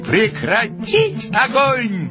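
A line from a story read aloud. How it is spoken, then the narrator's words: Shouted. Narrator (Russian): я крикнул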